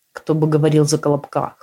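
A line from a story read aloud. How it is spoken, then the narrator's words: Almost peaceable smirk. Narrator (Russian): Хмыкнул почти миролюбиво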